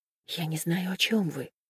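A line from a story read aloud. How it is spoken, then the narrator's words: Whisper. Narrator (Russian): прошептала она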